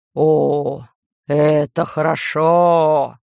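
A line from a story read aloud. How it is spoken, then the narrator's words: Drawn-out. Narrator (Russian): протянул Бог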